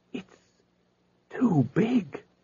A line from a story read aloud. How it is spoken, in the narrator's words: said Spelter under his breath